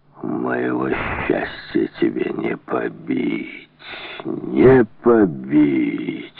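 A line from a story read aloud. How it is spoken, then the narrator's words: Triumphant boom. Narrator (Russian): торжествующе прогремел он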